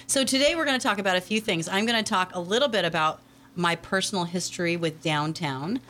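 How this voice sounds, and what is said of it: Congested, stuffy-nosed voice. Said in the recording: “I still have a sinus infection, so my voice is not fantastic”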